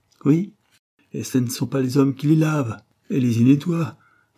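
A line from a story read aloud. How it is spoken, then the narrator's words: Increasingly irritated shout. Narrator (French): cria Madame Brum de plus en plus irritée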